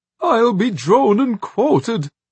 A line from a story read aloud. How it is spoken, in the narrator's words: Magwitch moaned